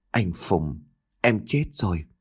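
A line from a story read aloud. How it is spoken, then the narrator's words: Soft tearful reply. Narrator (Vietnamese): Nước mắt của cô lăn dài trên gò má, khẽ trả lời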